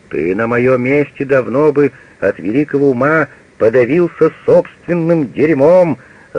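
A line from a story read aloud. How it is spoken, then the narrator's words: Furious yelling. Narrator (Russian): заорал в бешенстве Мейер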